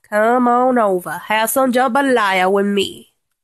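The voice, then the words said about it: Poor put-on Cajun accent. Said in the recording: “that is such a crappy Cajun accent.”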